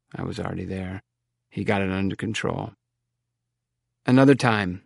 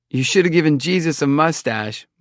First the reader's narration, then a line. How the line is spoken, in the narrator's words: Mike shouted